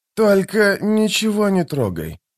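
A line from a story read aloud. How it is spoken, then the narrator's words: Muttered. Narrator (Russian): буркнул Кальп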